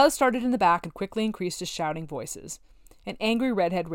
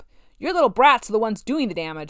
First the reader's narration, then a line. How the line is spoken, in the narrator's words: she shouted